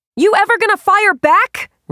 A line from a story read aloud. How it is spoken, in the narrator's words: Ray shouted